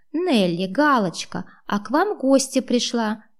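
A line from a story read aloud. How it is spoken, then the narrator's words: Cheerful old woman. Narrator (Russian): радостно сообщила им бабулька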